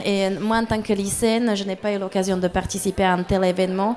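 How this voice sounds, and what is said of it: Slight Slovak accent. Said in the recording (French): “je suis slovaque. D'origine slovaque, vous entendez qu'il y a un petit accent.”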